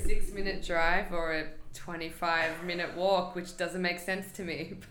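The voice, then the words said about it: Slight Australian accent. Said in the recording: “people might not be able to tell right away, but you have a bit of an accent ... I'm from Australia”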